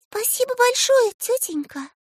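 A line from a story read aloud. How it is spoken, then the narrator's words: Girl's thin little voice. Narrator (Russian): тоненьким голоском поблагодарила девочка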